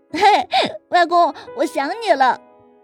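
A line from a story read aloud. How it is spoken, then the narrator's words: Sweet child's call. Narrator (Chinese): 儿子 甜甜的叫着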